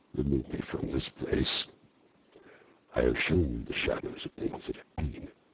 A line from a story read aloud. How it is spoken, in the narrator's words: said the ghost